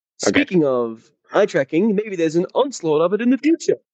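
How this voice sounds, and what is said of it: Imitates another person's voice. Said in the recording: “my Kyle impression”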